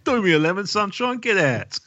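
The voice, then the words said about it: Put-on South London accent. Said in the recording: “they'd say it in a South London accent too”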